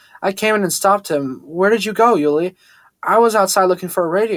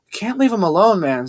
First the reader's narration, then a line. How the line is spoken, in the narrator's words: Xavier pleaded, not hiding his anger